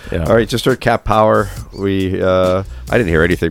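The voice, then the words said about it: Lower, congested voice. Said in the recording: “it's ... in another voice tonight ... It's ... in the lower octave. ... You should always get colds. ... I never can tell if I have allergies or I have a cold.”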